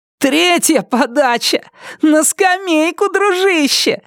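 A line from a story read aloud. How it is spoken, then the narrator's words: Yelling, then roaring laughter. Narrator (Russian): заорал Брайан и расхохотался так, что чуть не описался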